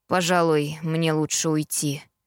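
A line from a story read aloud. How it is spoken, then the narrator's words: Heavy sigh. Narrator (Russian): Тяжело вздохнув, сказал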